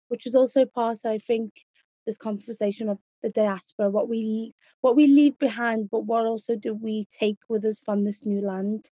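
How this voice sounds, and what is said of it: Strong Scouse (Liverpool) accent. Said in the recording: “I hold a very strong Scouse accent”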